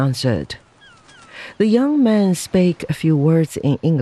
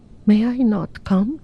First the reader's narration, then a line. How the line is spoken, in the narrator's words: pleaded